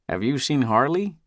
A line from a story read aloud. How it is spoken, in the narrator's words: he asks